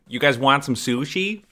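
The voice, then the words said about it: Put-on thick Central New York accent. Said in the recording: “With a thick Central New York accent? ... I don't know if that's a Central New York accent.”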